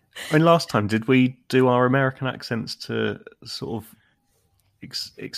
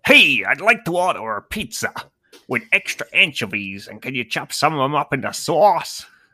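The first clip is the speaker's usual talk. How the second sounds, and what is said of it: Put-on American accent. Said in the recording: “I can do an excellent American accent”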